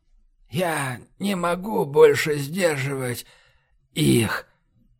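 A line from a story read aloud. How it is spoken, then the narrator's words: Hoarse, broken speech. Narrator (Russian): В горле у него хрипело, речь прерывалась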